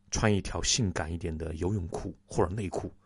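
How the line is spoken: Low whisper. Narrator (Chinese): 他进一步压低声音对我说

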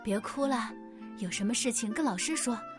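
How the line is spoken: Gentle, soothing. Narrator (Chinese): 垂耳兔老师温柔的说道

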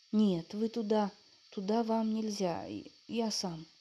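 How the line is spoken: Timid. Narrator (Russian): робко молвил Николка

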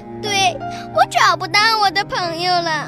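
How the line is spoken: Crying out tearfully. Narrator (Chinese): 鸭子哭喊着说

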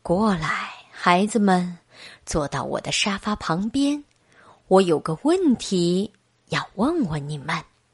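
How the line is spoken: Soft. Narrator (Chinese): 麦克鲁门先生轻声说

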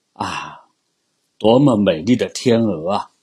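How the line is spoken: Admiring. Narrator (Chinese): 人们就会赞叹说

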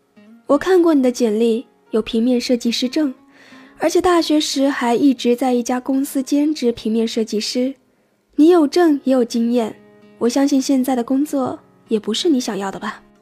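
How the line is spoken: Smiling. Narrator (Chinese): 大哥笑着说

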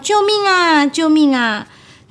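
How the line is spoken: Frightened screaming. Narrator (Chinese): 鳄鱼奶奶和四只小鳄鱼害怕的大叫

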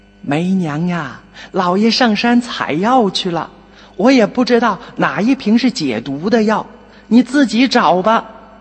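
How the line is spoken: Breathless old woman calling. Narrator (Chinese): 一个老婆婆气喘吁吁的 口中叫着

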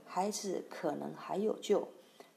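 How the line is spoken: Speaking quietly. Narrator (Chinese): 华佗 低声对师傅说

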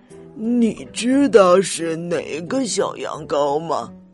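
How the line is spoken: Old dog muttering. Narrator (Chinese): 老灰狗嘟囔着

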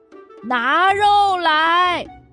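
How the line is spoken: Group shouting loudly. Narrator (Chinese): 我们全都大叫

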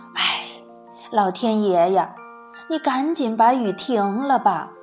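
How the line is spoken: Sighing woman. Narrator (Chinese): 一个女子唉声叹气地说

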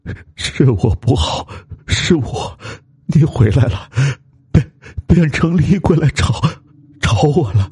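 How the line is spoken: Trembling, shaking voice. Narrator (Chinese): 老吴他全身发抖，声音也哆哆嗦嗦

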